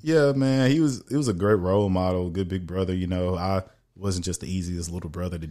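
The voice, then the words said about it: Strong Texas country accent. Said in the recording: “how strong of an accent I had ... You would have thought I was country bumpkin ... I sound like that”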